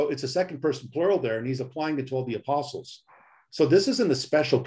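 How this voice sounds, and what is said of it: Usual voice. Nothing is said of it.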